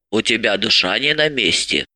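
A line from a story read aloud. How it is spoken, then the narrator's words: Grumbling. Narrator (Russian): проворчала Марья Ивановна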